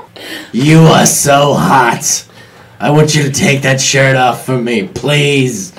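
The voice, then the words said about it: Poor Harvey Fierstein impression. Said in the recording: “the really unique voice. Harvey ... Fierstein ... This is not a good impression.”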